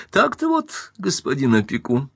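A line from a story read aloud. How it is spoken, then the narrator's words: Sudden, mock-important tone. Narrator (Russian): сказала вдруг, напуская на себя важность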